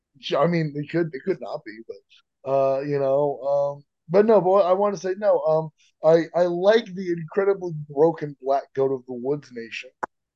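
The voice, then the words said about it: Sick, changed voice. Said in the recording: “I fully have bronchitis right now, and that's why my voice is different.”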